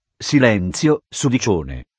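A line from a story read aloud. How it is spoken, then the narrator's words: Authoritative retort. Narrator (Italian): ribatté Garcia con tono autoritario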